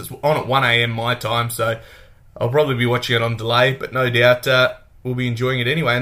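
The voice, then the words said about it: Australian drawl. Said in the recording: “my Australian drawl”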